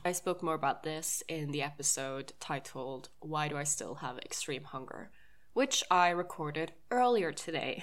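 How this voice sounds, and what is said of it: Slightly off, sick-sounding voice. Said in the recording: “this episode is recorded when I have COVID ... my voice is a little bit off”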